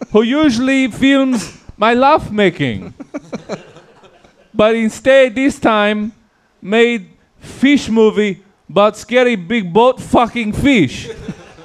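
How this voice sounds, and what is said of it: Vague, hard-to-place put-on accent. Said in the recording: “What accent was that? I was having a hard time placing. ... That is the vague Eastern Western. ... how stupid it was going to sound”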